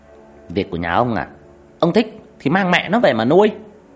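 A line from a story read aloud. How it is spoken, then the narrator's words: Angry stepmother shouting back. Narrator (Vietnamese): Mụ dì ghẻ trừng mắt quát lại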